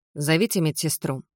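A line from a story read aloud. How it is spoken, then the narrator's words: Calm command. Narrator (Russian): спокойно приказала я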